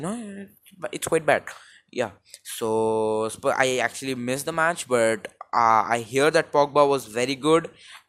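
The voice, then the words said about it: Indian accent. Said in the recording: “I am in India, as you can probably get that from my accent ... absolute shit accent ... it's just because of the mic”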